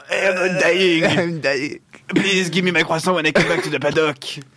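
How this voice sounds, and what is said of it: Put-on French accent. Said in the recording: “I can do a French accent because I'm native in French.”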